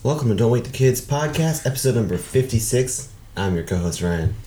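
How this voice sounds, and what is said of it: Slightly raspy voice. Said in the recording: “I have a little bit of a raspy voice.”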